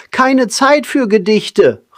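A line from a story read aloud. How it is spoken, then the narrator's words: Desperate cry. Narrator (German): rief Pippo verzweifelt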